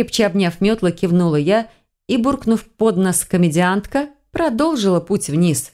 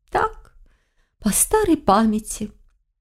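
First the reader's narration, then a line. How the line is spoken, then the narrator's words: Innocent question. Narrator (Russian): невинно ведьма поинтересовалась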